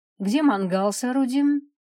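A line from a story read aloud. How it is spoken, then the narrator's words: Cheerful question. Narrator (Russian): бодро поинтересовался муж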